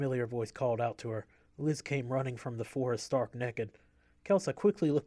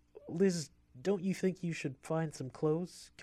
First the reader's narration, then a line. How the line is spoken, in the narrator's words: Kelsa choked out after being practically pulled off of her feet